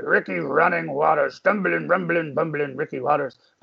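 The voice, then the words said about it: Imitates another person's voice. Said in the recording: “my Chris Berman impersonation”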